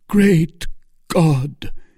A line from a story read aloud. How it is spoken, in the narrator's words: exclaimed Felton on seeing the knife glitter in her hand